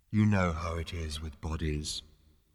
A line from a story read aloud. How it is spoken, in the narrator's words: After what seemed like a sort of ethereal sigh, it added